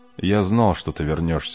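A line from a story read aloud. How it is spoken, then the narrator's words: Plain. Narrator (Russian): сказал Кей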